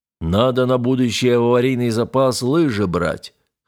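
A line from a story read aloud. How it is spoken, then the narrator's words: Deep practical voice. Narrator (Russian): хозяйственно пробасил боцман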